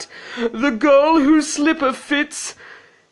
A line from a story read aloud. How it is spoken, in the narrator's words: he cried